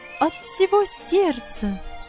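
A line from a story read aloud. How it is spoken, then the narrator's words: Ringing, joyful voice. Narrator (Russian): ответила она звонким, радостным голосом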